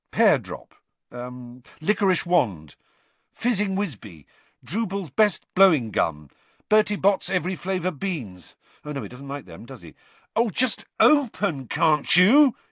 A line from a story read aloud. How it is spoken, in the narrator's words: he said angrily